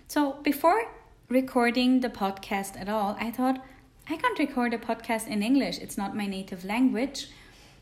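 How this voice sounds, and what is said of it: Non-native English accent. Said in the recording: “I'm not native speaking English. You might have heard it in my English ... I have a bit of a weird accent”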